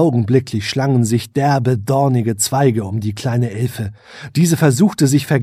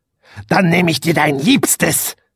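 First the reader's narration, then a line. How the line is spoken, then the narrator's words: Witch hissing. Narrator (German): fauchte die Hexe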